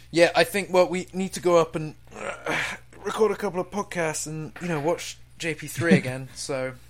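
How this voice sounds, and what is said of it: British accent. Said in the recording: “I love British accents, first of all. That's amazing. Yeah. Good on you guys for having British accents.”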